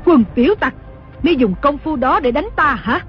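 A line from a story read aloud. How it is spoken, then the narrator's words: Furious scolding. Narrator (Vietnamese): Đồng mổ cả giận quát mắng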